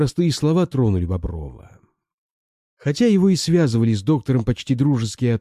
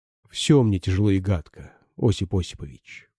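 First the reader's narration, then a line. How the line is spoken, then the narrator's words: Quiet reply. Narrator (Russian): отозвался тихо Бобров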